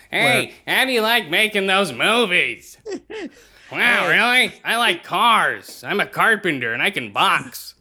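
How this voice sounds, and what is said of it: Imitates another person's voice, froggy. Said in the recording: “I sound like a frog.”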